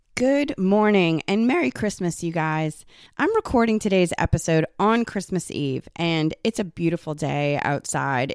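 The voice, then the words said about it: Slightly raspy voice. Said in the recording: “I'm still a little raspy getting over this cold that I have”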